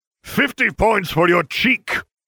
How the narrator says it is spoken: Severus roared

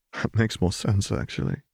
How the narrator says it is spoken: Zev admitted with a chuckle

